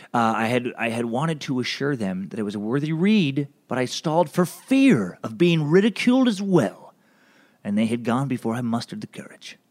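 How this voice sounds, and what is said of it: Reading aloud in a put-on accent. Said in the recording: “I don't know why I'm changing my accent as I read this.”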